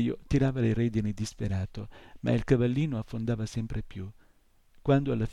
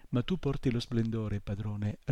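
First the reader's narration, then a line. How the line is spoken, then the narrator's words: Plain. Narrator (Italian): rispose Artax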